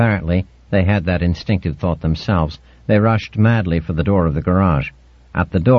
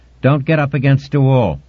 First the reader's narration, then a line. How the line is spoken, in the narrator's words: I shouted